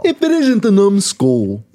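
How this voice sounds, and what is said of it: Brooklyn bully villain voice. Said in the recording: “That's a good voice ... that's a Disney villain voice ... It was a classic Brooklyn bully.”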